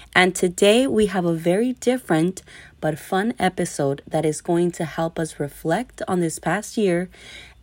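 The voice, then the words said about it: Raspy, recovering voice. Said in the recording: “as you can hear, my voice is still a little raspy. I was sick and my voice was completely gone”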